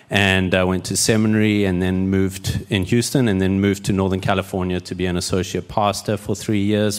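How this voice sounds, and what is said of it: South African accent. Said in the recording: “my accent glorious ... I am not Australian ... I'm South African and grew up there”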